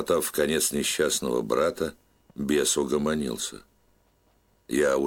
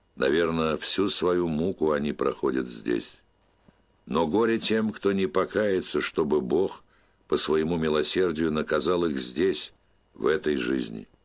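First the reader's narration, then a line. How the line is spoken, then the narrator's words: Sad old man. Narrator (Russian): печально качая головой, старец добавлял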